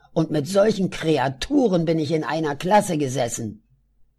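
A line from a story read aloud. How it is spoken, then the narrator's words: Still angry. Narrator (German): sagte Adolf, noch immer wütend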